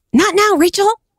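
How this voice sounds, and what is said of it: Imitates a TV character's voice. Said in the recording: “my Monica impression”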